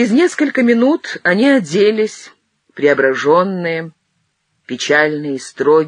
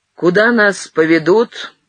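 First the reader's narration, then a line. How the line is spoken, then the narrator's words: Plain. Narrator (Russian): спросил Матвей Платоныч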